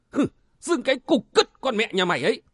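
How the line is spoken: Furious shout. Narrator (Vietnamese): Cung Minh nổi khùng lên quát hỏi

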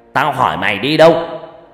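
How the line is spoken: Angry shout. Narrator (Vietnamese): Ông Long quát lên

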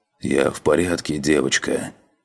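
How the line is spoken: Hoarse rasp. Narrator (Russian): прохрипел он

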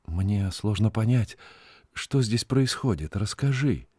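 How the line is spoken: Quiet request. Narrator (Russian): Надежда тихо попросила Синдбада

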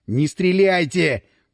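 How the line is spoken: Through gritted teeth. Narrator (Russian): процедил Васин

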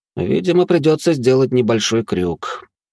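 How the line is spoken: Heavy sigh. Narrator (Russian): произнес Жозе и тяжело вздохнул

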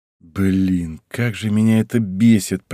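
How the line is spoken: Grumbling. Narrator (Russian): проворчал я

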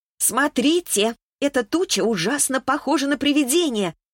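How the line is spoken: Fir tree's joyful shout. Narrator (Russian): радостно закричала елка

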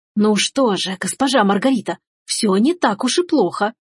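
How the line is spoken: Whisper from outside. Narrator (Russian): зашептал снаружи

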